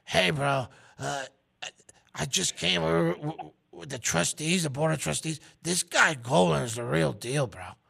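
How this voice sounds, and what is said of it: Imitates another person's voice. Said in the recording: “It's kind of creepy how well you can impersonate him. ... my impersonation skills.”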